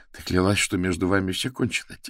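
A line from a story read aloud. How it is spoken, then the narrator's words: Quiet. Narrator (Russian): тихо проговорила Лана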